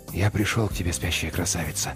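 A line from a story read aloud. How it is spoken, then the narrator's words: Whispered. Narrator (Russian): прошептал он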